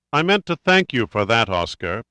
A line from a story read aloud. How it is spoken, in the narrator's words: Pitt said coldly